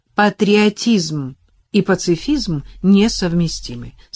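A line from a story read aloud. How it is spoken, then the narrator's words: Plain. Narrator (Russian): сказал ей Адам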